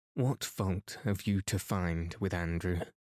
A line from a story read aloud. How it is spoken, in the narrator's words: She asked icily